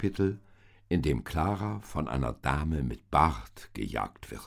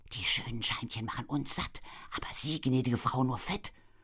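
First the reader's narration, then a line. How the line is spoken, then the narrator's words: Inner whispering voice. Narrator (German): flüsterte eine Stimme in Claras Hinterkopf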